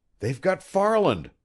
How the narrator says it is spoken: Prale exclaimed

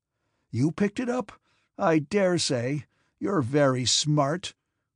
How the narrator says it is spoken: one of them shouted hoarsely

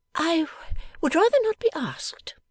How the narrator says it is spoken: said Bella, haughtily

